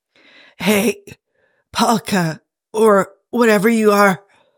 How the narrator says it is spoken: Jim tried to shout, and it came out more like a weak croak

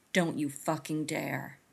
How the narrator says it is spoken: something else snarls

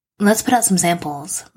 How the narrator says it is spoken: suggests brightly when he catches the ghost of grief passing across her face

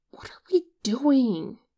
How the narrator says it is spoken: Hossok hisses

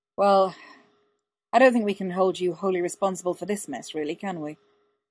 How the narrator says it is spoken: He sighed

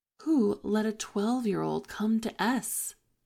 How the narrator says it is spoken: Yumi-chan says

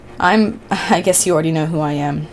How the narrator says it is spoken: he chuckled nervously

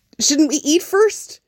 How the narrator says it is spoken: Jack said a little desperately

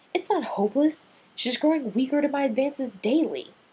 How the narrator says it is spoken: Turning bright red, Rodney snapped

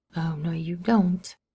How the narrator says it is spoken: Bucky muttered

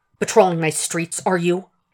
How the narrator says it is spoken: he hisses at Jack

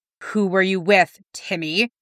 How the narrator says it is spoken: Jack demanded

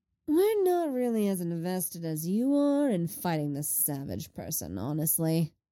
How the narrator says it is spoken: Lenny drawls

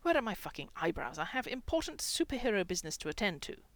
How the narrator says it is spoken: Brian snapped

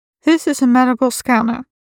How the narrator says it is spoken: she said to Merlin, her tone calm and professional, like she was coaxing a nervous animal

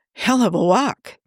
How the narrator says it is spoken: Tony gasps

